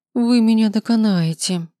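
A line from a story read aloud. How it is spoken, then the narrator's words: Groan. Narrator (Russian): простонала Весенняя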